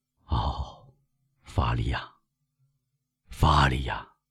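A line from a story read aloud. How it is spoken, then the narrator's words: Priest murmuring. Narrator (Chinese): 神父喃喃地说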